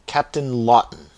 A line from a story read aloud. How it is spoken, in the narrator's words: exclaimed the surgeon